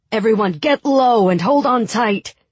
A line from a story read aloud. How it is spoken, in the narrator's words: shouted Sturmhand